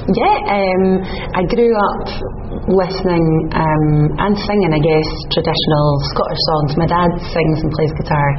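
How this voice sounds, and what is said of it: Scottish accent. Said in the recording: “has a wonderful Scottish accent.”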